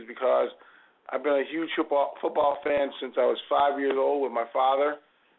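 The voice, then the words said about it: Raspy, worn-out voice. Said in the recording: “My apologies for my voice. It'll be raspy for the entire evening... the reason why it's raspy... wear out my voice and vocal cords”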